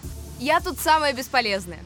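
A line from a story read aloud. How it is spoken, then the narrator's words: Said, then laughing. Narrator (Russian): сказала, засмеялась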